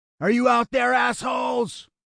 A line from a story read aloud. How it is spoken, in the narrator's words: Lionel shouted